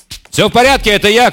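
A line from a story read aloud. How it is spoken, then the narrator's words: Shouting. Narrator (Russian): крикнул Тисима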